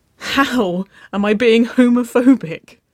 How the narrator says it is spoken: Winona laughed

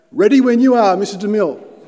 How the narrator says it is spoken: the cameraman up on the top of the hill shouted back

